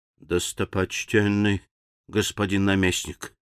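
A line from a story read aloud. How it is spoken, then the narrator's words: Quiet. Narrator (Russian): тихо заговорил живун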